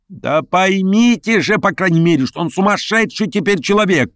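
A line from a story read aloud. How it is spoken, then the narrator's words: Shouting at full strength. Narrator (Russian): кричал изо всей силы Петр Степанович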